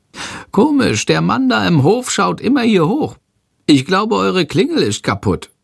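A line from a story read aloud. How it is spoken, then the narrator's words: Called out. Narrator (German): ruft Chandor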